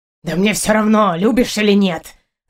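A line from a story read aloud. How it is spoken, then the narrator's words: Hissing. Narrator (Russian): зашипел на меня Партур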